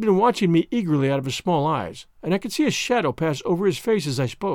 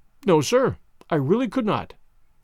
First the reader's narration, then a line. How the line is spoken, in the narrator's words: I answered firmly